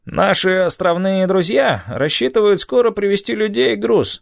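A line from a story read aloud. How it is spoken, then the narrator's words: Nasal voice. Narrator (Russian): сказал гнусавый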